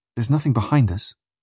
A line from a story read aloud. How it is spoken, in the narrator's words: says a man uneasily